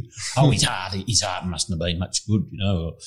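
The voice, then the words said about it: Imitates another person's voice. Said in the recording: “I'm trying to impersonate you. ... that didn't sound like my mother at all.”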